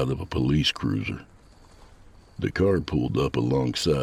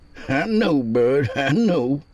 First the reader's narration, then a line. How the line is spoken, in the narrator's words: he chuckled